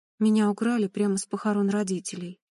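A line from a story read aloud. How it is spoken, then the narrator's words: Calm. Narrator (Russian): сказала спокойно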